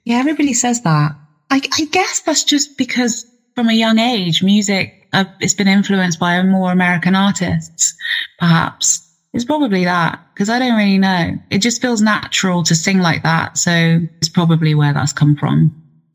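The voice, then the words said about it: British accent. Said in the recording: “from across the pond. Did you hear that accent? It's ridiculous, but it's crazy.”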